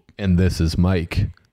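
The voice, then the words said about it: Deliberately deepened radio voice. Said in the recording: “I tried to deepen my voice there to get a radio voice”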